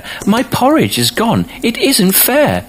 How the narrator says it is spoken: cried the baby bear

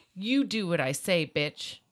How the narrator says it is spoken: he said

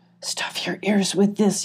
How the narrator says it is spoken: he whispered

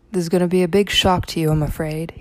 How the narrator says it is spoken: he said

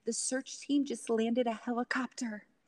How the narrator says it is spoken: Again, whispering, the child answered

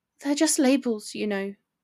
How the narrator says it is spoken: she mumbled

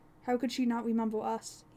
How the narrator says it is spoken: He cried out

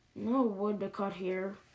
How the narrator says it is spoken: fell asleep curled with the bear cubs, mumbling

